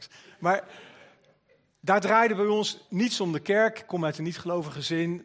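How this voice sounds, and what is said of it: Hague Dutch accent. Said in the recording (Dutch): “mijn accent is niet direct Amsterdams, ook niet Veluws ... Maar ik ben geboren en getogen in Den Haag.”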